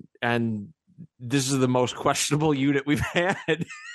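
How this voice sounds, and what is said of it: Usual voice. Nothing is said of it.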